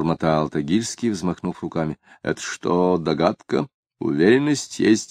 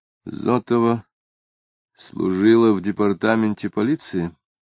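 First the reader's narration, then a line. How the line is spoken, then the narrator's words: Nervous, muffled question. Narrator (Russian): Ощутив нервную дрожь, точно его уколола игла, Самгин глухо спросил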